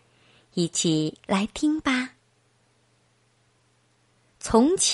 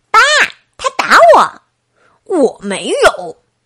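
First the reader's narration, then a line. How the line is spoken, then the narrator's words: Shouting. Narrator (Chinese): 艾希大叫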